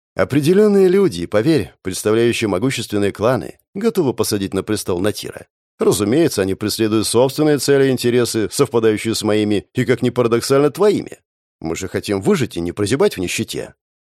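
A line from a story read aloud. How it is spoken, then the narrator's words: Soothing female voice. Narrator (Russian): успокаивающим голосом произнесла женщина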